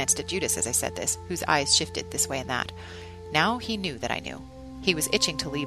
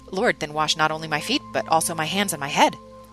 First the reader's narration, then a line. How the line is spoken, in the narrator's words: spluttering